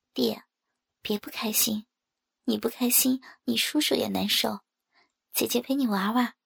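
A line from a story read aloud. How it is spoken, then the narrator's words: Soft voice. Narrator (Chinese): 我轻声的对他说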